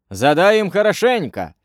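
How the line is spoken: Cheerful shout. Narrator (Russian): весело закричал Мат

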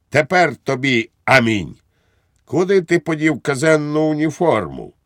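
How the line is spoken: Triumphant exclamation. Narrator (Ukrainian): Підпоручник Дуб вигукнув з тріумфом

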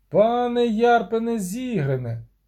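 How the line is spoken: Shouted. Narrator (Ukrainian): крикнув Вілен Третенмерт гному, який вчепився у скелі на висоті 20 ліктів над землею

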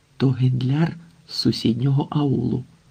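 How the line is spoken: Whispered. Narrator (Ukrainian): прошепотів Юсуп

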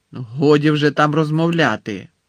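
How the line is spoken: Stern interruption. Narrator (Ukrainian): суворо урвала її професорка Спраут

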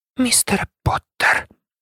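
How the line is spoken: Quiet. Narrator (Ukrainian): тихо сказала МакГонагалл

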